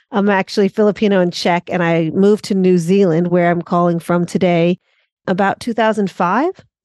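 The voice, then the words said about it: American accent. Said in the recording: “from my accent, you might tell that I'm American.”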